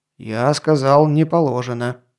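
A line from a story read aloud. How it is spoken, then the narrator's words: Lower-toned grumble. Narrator (Russian): уже тоном ниже пробурчал Насик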